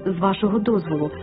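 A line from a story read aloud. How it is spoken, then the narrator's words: Plain. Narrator (Ukrainian): відповів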